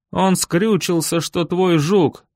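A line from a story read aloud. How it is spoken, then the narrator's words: Muffled furious howl. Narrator (Russian): Взвыл глухо и яростно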